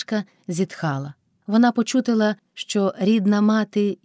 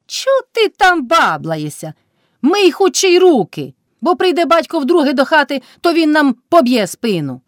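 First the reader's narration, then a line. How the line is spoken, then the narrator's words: Shout. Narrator (Ukrainian): вже крикнула Кайдашиха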